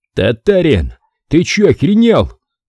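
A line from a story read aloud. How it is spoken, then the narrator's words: Shout. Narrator (Russian): крикнул я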